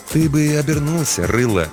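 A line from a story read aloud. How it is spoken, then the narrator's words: Soft advice. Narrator (Russian): мягко посоветовал детине смотритель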